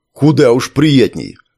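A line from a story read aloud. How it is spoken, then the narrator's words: Snappish retort. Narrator (Russian): огрызнулся Ковалев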